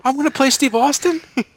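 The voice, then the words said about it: Imitates another person's voice, rising questioning inflection. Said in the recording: “That's your second best impression ... every sentence with a question at the end”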